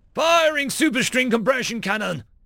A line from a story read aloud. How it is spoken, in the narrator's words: Worf roared